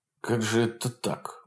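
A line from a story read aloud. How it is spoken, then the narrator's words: Dejected mutter, bearded man. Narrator (Russian): бормотал сокрушенно бородатый партизан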